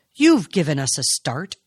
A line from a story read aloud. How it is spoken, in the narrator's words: she said sharply